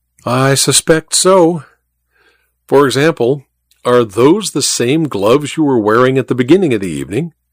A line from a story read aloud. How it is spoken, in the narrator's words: Ivy sighed dramatically